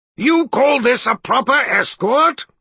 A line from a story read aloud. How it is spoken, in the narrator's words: Zed roared